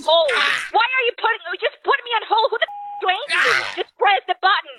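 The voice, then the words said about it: Aggressive yelling. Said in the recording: “She's very aggressive. ... Why are you yelling at me?”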